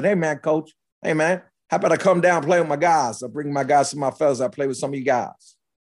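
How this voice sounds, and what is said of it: Put-on West Virginia accent. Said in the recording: “a New York guy doing a West Virginia accent.”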